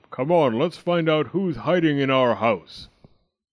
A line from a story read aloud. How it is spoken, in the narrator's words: Daddy Bear bellowed